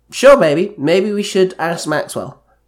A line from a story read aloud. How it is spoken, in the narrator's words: Kendall said